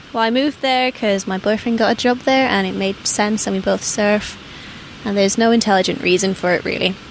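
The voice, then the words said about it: English accent. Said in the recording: “You dropped into your English accent there.”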